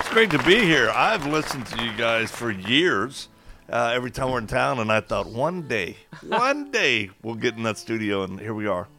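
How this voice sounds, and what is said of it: Distinctive Western documentary-style radio voice. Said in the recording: “is this not one of the most unique voices? ... This is such a radio voice ... I feel like I'm in the West, like in the wild, wild West when I'm hearing this ... like a documentary kind of a voice”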